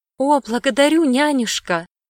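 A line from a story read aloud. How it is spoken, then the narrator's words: Exclaimed. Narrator (Russian): воскликнула Ладомира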